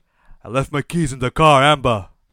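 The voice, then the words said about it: Boston Rob impression. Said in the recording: “to do a Boston Rob impression. And I would do an impression of him speaking. But I can't. All I can do is this.”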